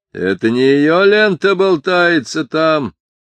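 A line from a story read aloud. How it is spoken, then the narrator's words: Shouting. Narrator (Russian): закричал Ишмаэл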